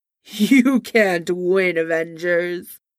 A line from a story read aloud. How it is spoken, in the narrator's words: Kang laughed